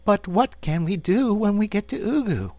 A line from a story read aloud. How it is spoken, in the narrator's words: inquired the Cookie Cook anxiously